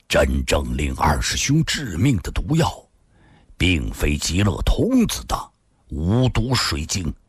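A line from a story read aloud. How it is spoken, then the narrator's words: Deep solemn voice. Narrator (Chinese): 心术沉声说道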